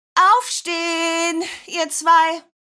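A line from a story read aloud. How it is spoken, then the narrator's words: Calling from another room. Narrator (German): rief Mama Nadine aus der Küche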